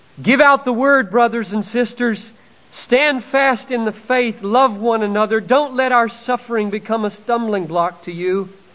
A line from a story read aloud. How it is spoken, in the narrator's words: Perpetua called out